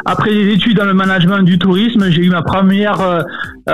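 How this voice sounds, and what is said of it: Southern French accent. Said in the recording (French): “Vous aurez l'impression de partir dans le sud de la France avec son accent. ... ce petit accent, on va le reconnaître tout de suite. ... originaire du sud de la France”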